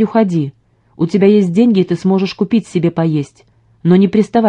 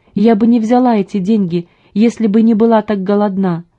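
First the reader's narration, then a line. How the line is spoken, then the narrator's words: Moaning. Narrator (Russian): простонала она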